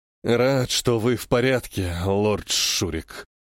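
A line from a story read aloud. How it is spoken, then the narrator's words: Weary sigh. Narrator (Russian): устало вздыхает лорд Данте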